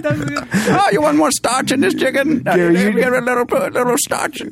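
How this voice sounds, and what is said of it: Wolfgang Puck impression, put-on Chinese accent. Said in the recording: “My take on Wolfgang Puck is that he sounds like a Chinese guy who runs a laundromat.”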